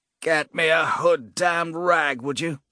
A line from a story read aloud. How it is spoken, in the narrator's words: Cowl croaked, his voice hoarse